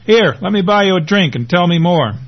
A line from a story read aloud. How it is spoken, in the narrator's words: shouts over the sound system